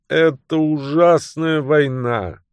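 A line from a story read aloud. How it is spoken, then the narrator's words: Groaning. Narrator (Russian): Миссис Перенья застонала и произнесла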